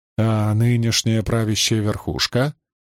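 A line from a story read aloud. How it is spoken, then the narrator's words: Plain question. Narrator (Russian): спросил Басрахиб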